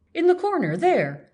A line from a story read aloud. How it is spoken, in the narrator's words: the girl exclaimed